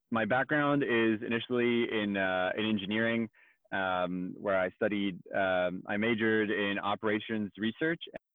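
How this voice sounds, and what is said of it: Slight French accent. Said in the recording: “we can maybe hear, I mean, compared to me, it's nothing, but a tiny little French accent”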